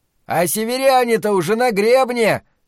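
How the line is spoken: Shouted. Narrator (Russian): крикнул сержант

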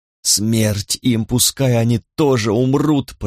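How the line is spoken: Hoarse, head down. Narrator (Russian): прохрипела она, не поднимая головы от стола

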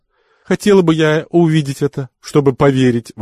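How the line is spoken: Exclaimed, bursting into laughter. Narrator (Russian): воскликнула Наджеб, раздражаясь смехом

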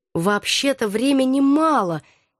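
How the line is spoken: Uncertain, sullen commander. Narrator (Russian): неуверенно насупился командор

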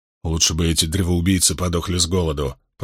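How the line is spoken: Grumbled. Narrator (Russian): пробурчал Баэл

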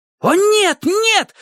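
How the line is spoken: Yell. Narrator (Russian): завопил Спидо

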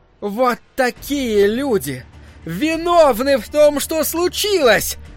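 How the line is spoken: Shout. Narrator (Russian): закричала миссис Кармоди

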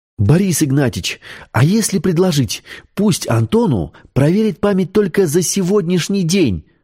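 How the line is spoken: Joyful exclamation. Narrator (Russian): радостно воскликнула Светлана

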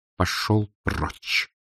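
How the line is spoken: Quiet but very distinct. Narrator (Russian): Тихо, но очень отчетливо произнес он

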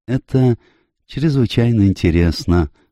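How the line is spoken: Timid. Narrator (Russian): робко сказал Пуаро

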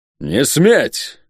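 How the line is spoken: Barked. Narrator (Russian): рявкнул чума

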